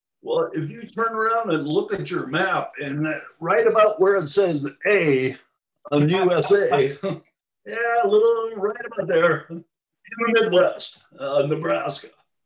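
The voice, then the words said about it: Midwestern American accent. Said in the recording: “it was a Midwestern upbringing. I think you could probably tell from my accent.”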